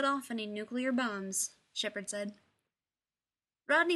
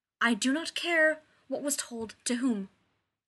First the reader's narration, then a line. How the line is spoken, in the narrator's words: Zelenka snapped